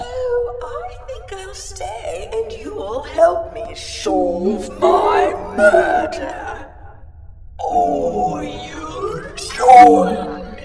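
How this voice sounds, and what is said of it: Scary theatrical Lady Macbeth voice. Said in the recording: “do your Lady Macbeth voice? It's much scarier coming from a ghost.”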